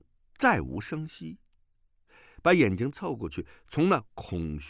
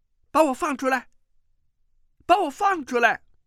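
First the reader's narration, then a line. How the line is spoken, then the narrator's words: Shouting. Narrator (Chinese): 穆婉清大叫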